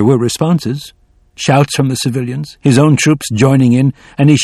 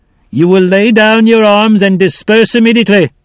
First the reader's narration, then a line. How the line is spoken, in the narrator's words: Pitcairn felt a hard pounding in his chest, shouted out